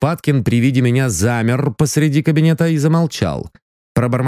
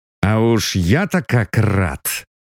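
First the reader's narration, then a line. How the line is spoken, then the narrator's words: Through gritted teeth. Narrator (Russian): процедил я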